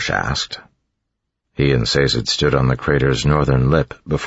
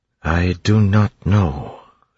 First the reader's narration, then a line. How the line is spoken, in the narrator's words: Sazed said slowly